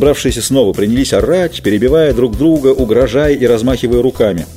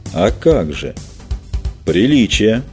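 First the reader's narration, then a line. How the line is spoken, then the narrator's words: Calm. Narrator (Russian): спокойно сказал Эйст Турсеах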